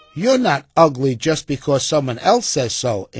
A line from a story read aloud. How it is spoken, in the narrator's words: answered Annie